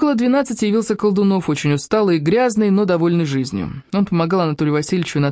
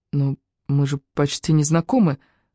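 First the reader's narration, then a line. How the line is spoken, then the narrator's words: Timid. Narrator (Russian): робко сказала Катя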